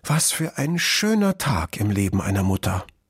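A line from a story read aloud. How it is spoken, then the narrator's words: Vixen's moved sigh. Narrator (German): seufzte die Füchsin gerührt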